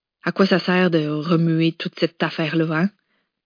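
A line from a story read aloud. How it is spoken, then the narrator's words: Sighed. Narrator (French): Simone avait soupiré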